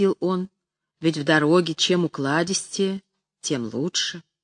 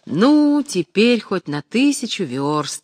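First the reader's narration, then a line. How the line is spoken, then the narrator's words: Cheerful. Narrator (Russian): весело говорил Алексей Алексеевич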